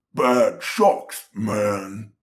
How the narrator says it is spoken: Marco said in a low, guttural, muddy voice

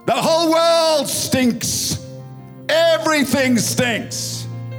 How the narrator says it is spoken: Grandpa shouted in disgust

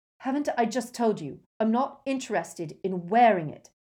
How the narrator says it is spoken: Harry said fiercely

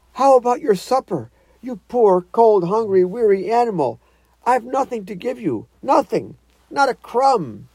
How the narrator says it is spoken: he moaned

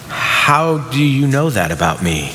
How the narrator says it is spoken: Nathanael asked

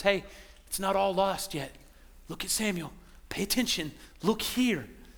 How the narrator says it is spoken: God was just whispering to us

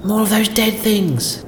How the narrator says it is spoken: Killia exclaimed in disgust

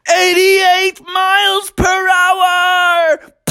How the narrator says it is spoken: Bucky yelled out

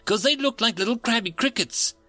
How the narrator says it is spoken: said in an eager tone

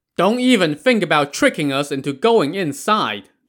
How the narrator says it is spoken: the Zhao brothers shouted back

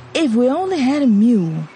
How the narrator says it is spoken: he sighed

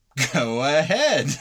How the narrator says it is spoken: I laughed

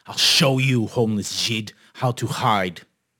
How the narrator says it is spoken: Their captain growled

